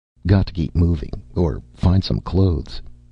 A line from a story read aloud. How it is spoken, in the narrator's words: he muttered